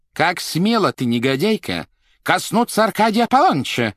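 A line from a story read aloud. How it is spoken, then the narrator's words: Menacing question. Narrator (Russian): грозно спросила супруга Аркадия Аполлоныча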